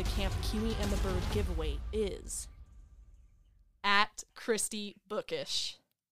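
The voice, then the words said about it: Strained put-on country accent. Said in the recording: “without the country accent. Let me tell you guys, that accent was a struggle”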